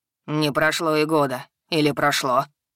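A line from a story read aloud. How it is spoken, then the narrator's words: Troll snorting. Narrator (Russian): хмыкнул тролль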